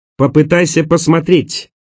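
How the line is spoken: Indignant shout. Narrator (Russian): Почти так же возмущенно крикнула

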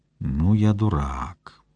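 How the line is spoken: Distinct whisper. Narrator (Russian): отчетливо прошептал Игорь

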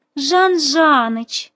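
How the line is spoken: Mocking drawl, imitating voice. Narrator (Russian): протянула насмешливо подражая его голосу

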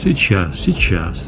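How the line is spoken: Affectionate boss. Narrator (Russian): ласково сказал шеф

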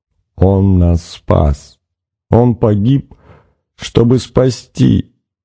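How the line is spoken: Anguished moan. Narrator (Russian): простонала та

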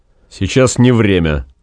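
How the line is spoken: Dry, restrained. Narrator (Russian): по возможности сухо сказал

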